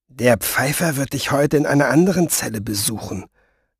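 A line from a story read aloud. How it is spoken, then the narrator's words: Murmured. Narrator (German): raunten sie ihm zu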